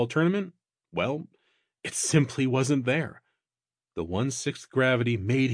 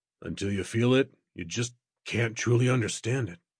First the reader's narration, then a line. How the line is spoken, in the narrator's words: muttered to himself